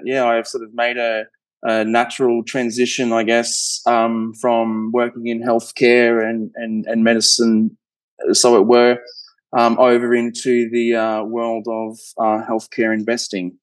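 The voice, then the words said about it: Australian accent. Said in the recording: “Very interesting accent as well. I always enjoy hearing a good Australian accent.”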